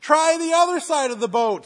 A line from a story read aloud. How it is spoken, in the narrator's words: he shouts back